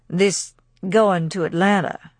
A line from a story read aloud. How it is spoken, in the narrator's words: he said at last in a slow voice